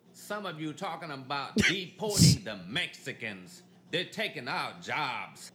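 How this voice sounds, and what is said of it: Southern drawl with Vietnamese accent. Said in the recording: “He got that southern drawl with the Vietnamese accent.”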